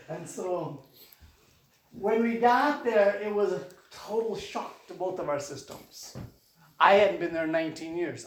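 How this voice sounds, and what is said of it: Midwestern American accent. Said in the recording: “I'm Midwestern all the way through ... People still tell me my accent is from the Midwest.”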